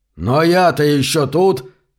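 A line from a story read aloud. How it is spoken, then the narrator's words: Yelled. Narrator (Russian): заорал мистер Баттеркап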